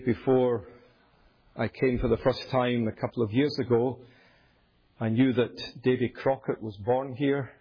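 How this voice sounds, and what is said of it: Scottish accent. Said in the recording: “accent ... it is Scottish, from the top of my head to the soles of my feet”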